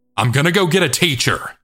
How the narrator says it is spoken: My friend suddenly shouted really loudly

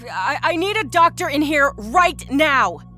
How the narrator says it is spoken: she bellowed out into the hallway

